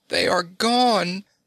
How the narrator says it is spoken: cried Ozana in dismay

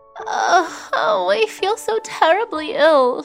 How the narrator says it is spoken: she moaned

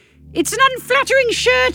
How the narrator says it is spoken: I shout

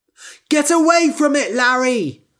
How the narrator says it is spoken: I shouted

